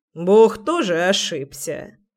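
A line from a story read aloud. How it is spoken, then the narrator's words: Sarcastic remark. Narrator (Russian): Язвительно поинтересовался Гришка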